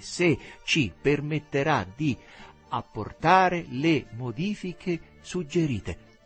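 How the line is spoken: Slow, deliberate. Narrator (Italian): Teresa pronunciava lentamente

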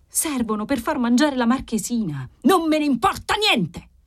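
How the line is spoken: Yelled. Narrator (Italian): urlò Formosa

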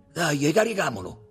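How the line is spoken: Shouted. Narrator (Italian): gridò Tommaso

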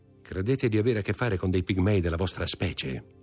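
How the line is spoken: Very calm tone. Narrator (Italian): disse Bertuccio con tono così calmo

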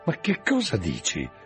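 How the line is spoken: Tense exclamation. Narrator (Italian): esclamai con la pelle che mi si tendeva sugli zigomi

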